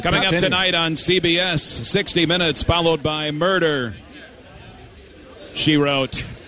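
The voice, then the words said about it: Pat Summerall impression. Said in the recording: “I can't believe I'm trying to do an impression... It wasn't bad... Pat Summerall”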